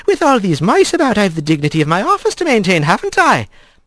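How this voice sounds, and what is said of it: Accented female character voice. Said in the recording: “her accent rolling around Rat's ears”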